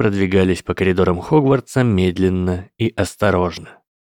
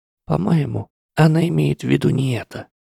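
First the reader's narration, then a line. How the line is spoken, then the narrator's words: Mutter. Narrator (Russian): пробормотала генерал Грейнджер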